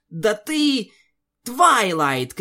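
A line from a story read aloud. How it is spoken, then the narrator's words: Shouting. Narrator (Russian): крикнула Пегаска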